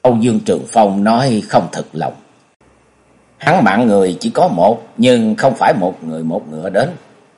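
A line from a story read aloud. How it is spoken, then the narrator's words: Muttering. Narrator (Vietnamese): Nhậm Sương Bạch lắc đầu lẩm bẩm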